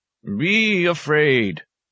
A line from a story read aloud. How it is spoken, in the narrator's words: an old warrior ceremonially wailed